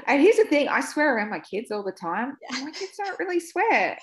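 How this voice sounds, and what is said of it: Australian accent. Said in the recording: “I don't know if it's the accent ... it's Australian”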